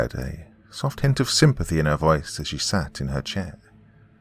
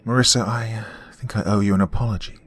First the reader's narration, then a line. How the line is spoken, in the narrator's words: she sighed